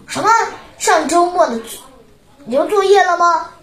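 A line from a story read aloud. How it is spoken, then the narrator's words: Shouting. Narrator (Chinese): 铁头大喊道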